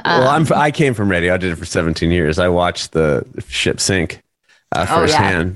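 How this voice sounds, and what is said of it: Consistent professional radio voice. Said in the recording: “this is a radio voice ... It's something about the consistency and the tenor of your voice”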